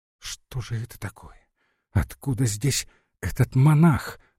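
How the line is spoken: Impatient whispered question. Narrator (Russian): нетерпеливо спросила шепотом Глафира

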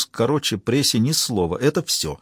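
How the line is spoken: Quiet after deep sigh. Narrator (Russian): Габриэль глубоко вздохнул и тихо произнес

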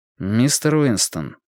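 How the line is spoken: Calm but distinct. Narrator (Russian): сказал Мэтью спокойно, но отчетливо

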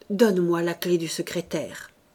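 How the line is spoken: Plain. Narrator (French): demanda Marthe

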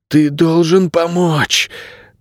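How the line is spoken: Hoarse rasp. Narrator (Russian): прохрипел Найред

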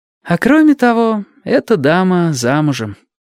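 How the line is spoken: Slightly tired. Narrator (Russian): немного устало добавила сестра Тамура

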